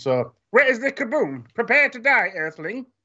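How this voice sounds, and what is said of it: Marvin the Martian cartoon voice impression. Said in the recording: “one of my favorite characters ever with Marvin the Martian ... I can do an impression as well. It's pretty good, right?”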